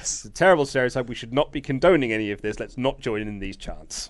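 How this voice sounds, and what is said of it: Posh, polished English voice. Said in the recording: “you're doing it in your posh voice ... you've got your phone voice on all the time now”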